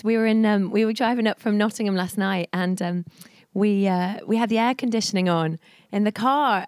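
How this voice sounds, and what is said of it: Husky, hoarse voice. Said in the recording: “Excuse my voice. ... I've gone all husky.”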